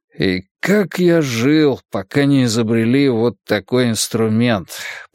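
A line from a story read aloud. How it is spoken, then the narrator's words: Grumbling under breath. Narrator (Russian): проворчал Вука под нос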